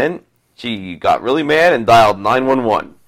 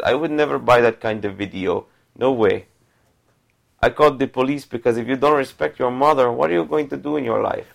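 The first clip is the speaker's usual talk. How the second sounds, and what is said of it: Put-on accent. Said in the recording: “This is why I use the accent.”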